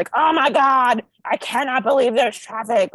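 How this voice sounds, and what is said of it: Imitates an exasperated complaining local. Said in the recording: “That was such a great impression, because that's everybody I've ever spoken to.”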